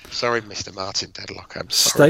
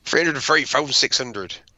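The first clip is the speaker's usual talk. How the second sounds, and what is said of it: Put-on Irish accent, sounds West Country. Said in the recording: “Did you just go West Country then? ... That was my Irish accent. ... I thought we went from Bristol for a minute.”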